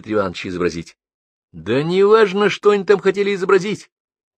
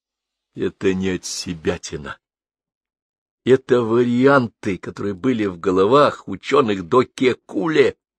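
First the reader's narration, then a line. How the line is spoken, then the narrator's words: Gentle correction. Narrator (Russian): мягко поправил ее Бабст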